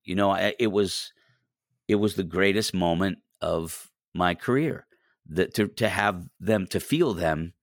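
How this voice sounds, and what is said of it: Emotional, voice choking up. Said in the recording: “I'm getting emotional, I'm sorry.”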